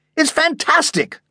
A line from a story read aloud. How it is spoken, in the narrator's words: cried Grandpa